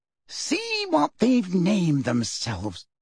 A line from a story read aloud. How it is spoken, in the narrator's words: said Fudge quietly